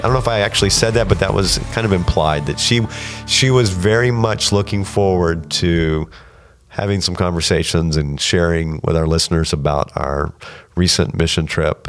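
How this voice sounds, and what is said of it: Voice sounds a little different, unwell. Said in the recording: “my voice sounds a little different, doesn't it? ... Yes, it does. ... I'm kind of getting over my own little thing here. ... if I break out in a coughing spell”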